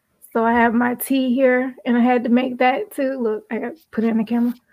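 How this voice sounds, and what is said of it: Strained, fading voice. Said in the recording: “my voice is going too”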